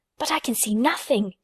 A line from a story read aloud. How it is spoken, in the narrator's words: he whispered